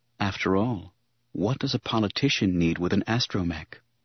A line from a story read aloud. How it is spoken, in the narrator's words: a whisper of